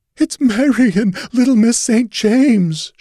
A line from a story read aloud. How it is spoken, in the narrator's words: she sobbed